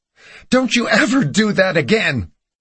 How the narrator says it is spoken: she screamed

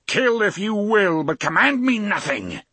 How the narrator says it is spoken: the gunslinger roared

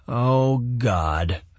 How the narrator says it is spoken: she moaned

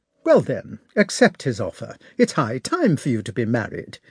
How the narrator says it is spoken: answered the Countess sharply and sarcastically

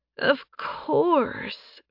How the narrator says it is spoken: Faye purred

